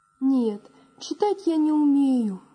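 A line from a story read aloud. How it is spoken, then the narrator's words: Sighing. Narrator (Russian): вздохнул Василь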